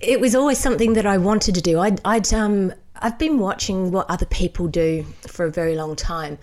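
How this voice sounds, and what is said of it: Speaks with a regional home accent. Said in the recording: “we can hear by your accent, it's the homeland”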